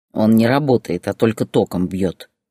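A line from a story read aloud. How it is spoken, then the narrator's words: Man's snort. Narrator (Russian): хмыкнул мужчина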